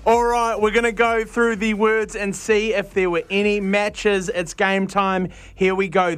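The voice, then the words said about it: New Zealand accent. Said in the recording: “the accent might put you off sometimes. Unfortunately, I am from over the ditch. ... you are a New Zealander.”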